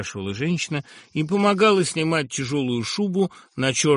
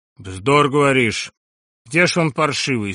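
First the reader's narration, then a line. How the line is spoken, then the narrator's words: Stern, curt question. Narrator (Russian): строго и отрывисто спрашивал господин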